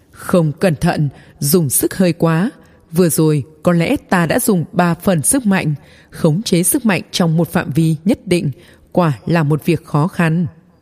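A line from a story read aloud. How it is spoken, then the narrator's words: Gentle, smiling. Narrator (Vietnamese): người thanh niên này cực kỳ ôn hòa, mỉm cười nói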